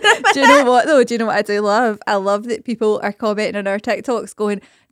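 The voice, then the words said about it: Scottish accent. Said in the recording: “Stop with your Scottish chat. ... exaggerate our accent”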